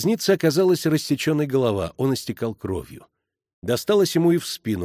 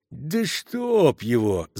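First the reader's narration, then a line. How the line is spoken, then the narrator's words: Groaning. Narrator (Russian): застонал ресторатор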